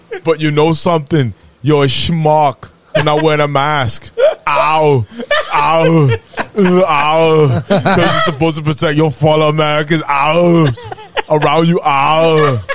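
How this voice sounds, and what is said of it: Imitates another person's voice. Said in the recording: “I've never done a Schwarzenegger impersonation. That was my first time. ... That was great. ... That was okay.”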